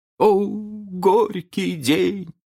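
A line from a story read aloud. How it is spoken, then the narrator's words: Old man groaning. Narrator (Russian): простонал старкий джентльмен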